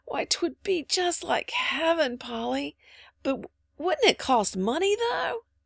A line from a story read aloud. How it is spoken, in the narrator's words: said little Davy, drawing a long sigh